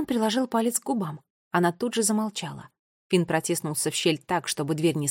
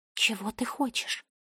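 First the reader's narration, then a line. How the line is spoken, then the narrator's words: Whisper. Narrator (Russian): прошептала Бунтесса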